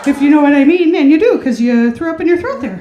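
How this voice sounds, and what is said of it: Slightly exaggerated Wisconsin accent. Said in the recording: “her voice isn't the same as in her stand-up. Her stand-up, she embellishes her Wisconsin accent just a little bit”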